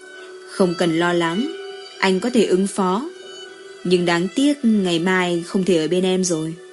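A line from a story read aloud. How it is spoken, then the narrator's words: Gentle, tender. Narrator (Vietnamese): Nguyễn Thiệu Nam dịu dàng nói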